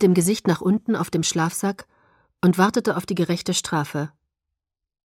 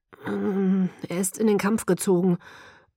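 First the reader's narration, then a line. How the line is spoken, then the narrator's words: Mumbled into ground. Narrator (German): nuschelte in den Boden hinein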